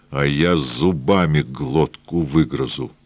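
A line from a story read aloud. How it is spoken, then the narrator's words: Furious words through teeth. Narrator (Russian): Яростно сощурив глаза, князь процедил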